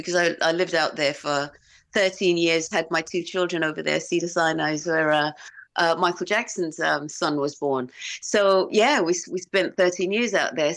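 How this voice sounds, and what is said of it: English Romford accent with LA influence. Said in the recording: “I think I've incorporated a lot of the American LA accent into the way that I speak ... my accent is kind of like got a little bit of Romford ... From LA.”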